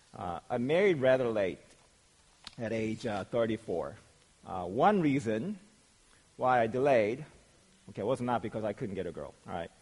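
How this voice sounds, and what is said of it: Hoarse, strained voice. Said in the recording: “losing my voice,”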